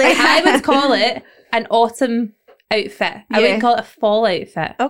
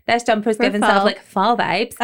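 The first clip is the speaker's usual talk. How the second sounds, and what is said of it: Tongue-in-cheek put-on American accent. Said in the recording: “I'd say it in like a wee accent, almost in a way that I would never say this in my usual language ... tongue-in-cheek ... I literally say it in the accent of where it originates”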